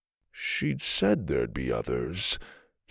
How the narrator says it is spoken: he mumbled

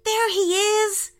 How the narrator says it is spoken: shouted Isaac

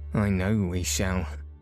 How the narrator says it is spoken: said Robert bitterly

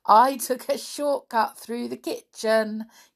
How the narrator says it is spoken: Gabby giggled

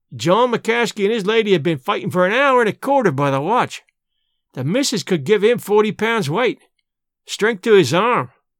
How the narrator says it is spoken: he exclaimed

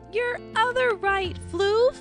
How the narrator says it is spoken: Rosie cried

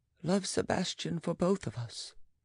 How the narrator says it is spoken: added, in a barely intelligible voice

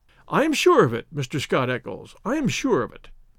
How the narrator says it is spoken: said Inspector Gregson in a very amiable tone

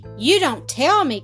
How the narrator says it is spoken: cried Lightfoot

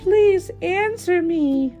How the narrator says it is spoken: cried

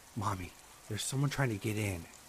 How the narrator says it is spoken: I whispered

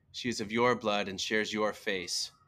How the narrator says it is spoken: he yelled, his voice echoing throughout the seemingly empty room

